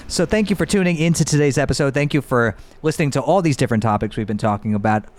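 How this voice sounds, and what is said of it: Out of breath, breathless speech. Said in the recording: “I'm out of breath. They're out of breath,”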